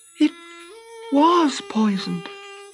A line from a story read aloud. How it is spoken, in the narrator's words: she said softly